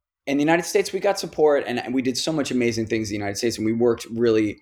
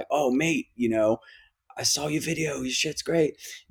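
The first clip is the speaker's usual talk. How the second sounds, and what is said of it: Put-on English accent. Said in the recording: “that's my English accent. been working on that.”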